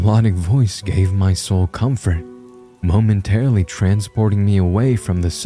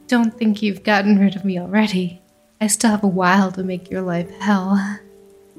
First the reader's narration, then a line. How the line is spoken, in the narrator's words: said with a giggle